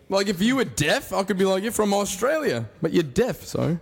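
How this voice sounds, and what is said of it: Australian accent. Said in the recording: “he has an Australian accent”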